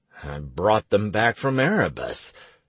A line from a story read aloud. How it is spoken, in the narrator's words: I grumbled